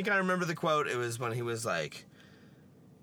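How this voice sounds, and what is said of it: Usual voice. Nothing is said of it.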